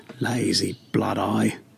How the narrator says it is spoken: a butcher muttering

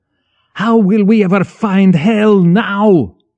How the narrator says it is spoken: Blotsky screamed insensibly

